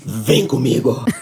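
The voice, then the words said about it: Brazilian soap-opera villain voice. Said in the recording (Portuguese): “melhor imitação brasileira, até porque a ... imita vários brasileiros diferentes. Esta que acabámos de ouvir é uma vilã de novela da Globo.”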